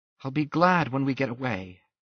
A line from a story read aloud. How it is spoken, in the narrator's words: she sighed